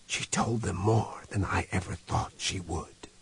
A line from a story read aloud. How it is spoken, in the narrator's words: he whispered